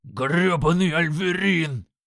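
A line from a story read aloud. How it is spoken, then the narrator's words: Growling. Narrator (Russian): зарычал Крак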